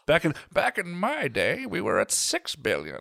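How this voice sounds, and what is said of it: Cranky old man voice. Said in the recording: “my cranky old man voice”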